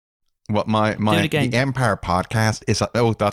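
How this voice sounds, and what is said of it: Terrible put-on Northern Irish accent. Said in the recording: “I can do a terrible Northern Irish accent... My Belfast accent”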